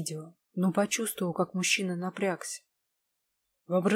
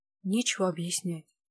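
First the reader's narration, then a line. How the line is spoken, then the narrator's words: Sigh. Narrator (Russian): вздохнула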